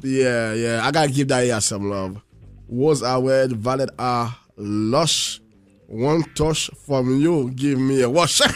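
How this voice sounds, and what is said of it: Speaker with a noticeable accent. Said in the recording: “I got an accent, man”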